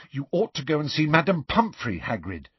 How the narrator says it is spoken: said Hermione anxiously

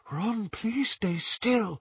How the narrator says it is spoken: Luna whispered

